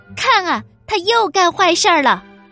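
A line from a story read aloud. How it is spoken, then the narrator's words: Loud shouting from behind. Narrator (Chinese): 王后还在后面高声喊着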